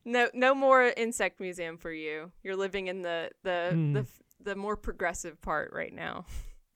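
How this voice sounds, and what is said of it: Southern US accent. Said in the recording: “I'm from the South ... my cute accent”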